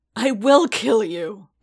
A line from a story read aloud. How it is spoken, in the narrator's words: Paz snarled